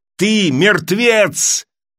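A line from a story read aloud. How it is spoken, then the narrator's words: Shouting while striking. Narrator (Russian): крикнул Сэм, нанося удар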